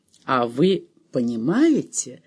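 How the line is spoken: Gentle question. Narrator (Russian): мягко спросила миссис Тредуэлл

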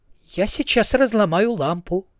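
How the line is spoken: Calm threat. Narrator (Russian): спокойно пригрозила Канина

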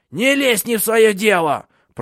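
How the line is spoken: Old woman's chilling shriek. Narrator (Russian): пронзительно закричала старуха так, что мороз продрал по коже

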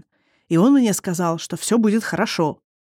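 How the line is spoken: Through gritted teeth. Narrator (Russian): процедил сквозь зубы Эндан

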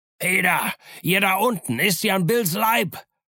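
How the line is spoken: Blind man shouting again. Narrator (German): schrie der Blinde wieder

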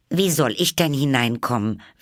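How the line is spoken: Repeated loudly. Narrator (German): wiederholte laut

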